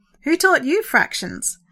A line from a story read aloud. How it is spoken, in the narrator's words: Sandra laughed